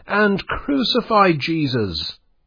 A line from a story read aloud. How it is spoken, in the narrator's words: cried the uproarious crowd